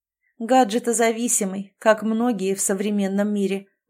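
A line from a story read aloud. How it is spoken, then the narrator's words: Sigh. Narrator (Russian): вздохнула Галя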